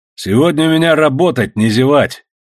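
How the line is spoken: Stern warning. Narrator (Russian): грозно предупредил Иван всех работников

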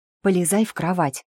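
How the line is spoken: Whispered command. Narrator (Russian): скомандовала я шепотом

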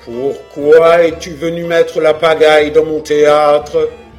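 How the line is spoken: Gruff congested ogre voice. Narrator (French): demanda le marionnettiste à Pinocchio d'une grosse voix d'ogre ayant un bon rhume de cerveau

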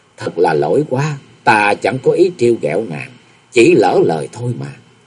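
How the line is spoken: Smiling, after swallowing. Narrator (Vietnamese): Nhậm Xuân Bạch nuốt vội miếng thịt ở trong miệng, chàng mỉm cười nói

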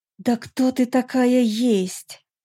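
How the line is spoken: Angry hiss. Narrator (Russian): Со злостью прошипела Летильда

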